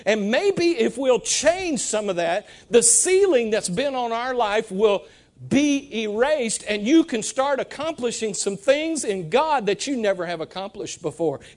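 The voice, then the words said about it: Breathless, winded preaching voice. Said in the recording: “I'm out of breath. I'm preaching so hard.”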